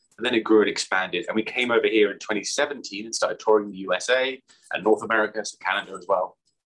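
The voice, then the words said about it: British accent. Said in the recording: “It started over in the UK, where I'm from, in case you guys couldn't tell from the accent.”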